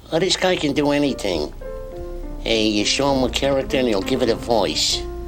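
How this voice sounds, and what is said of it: Cartoon rabbit character voice. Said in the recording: “how would Bugs describe you as a human being?”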